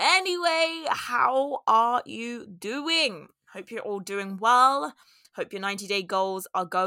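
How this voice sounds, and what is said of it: Usual voice. Nothing is said of it.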